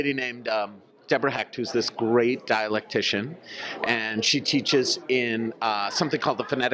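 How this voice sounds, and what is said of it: Usual voice. Nothing is said of it.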